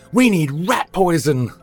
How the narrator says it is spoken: Victor yelled

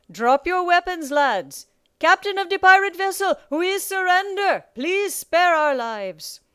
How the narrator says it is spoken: Captain Nightlighter called out

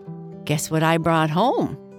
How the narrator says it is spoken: asked Bernice

